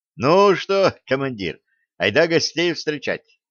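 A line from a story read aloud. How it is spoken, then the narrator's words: Joyful question. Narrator (Russian): спросил Новиков, радостно потирая руки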